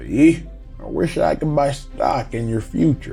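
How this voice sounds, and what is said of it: Put-on Southern drawl. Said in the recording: “Southern draw accent”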